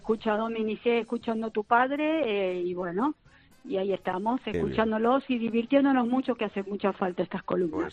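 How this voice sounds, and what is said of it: Argentine Spanish accent. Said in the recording (Spanish): “Me encanta su acento. ... soy argentina”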